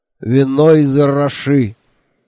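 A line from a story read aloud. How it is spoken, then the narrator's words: Angry. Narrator (Russian): сердито сообщил Мохи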